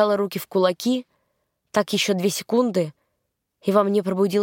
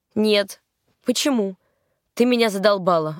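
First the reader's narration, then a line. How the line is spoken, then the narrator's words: Snapping retort. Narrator (Russian): огрызнулся он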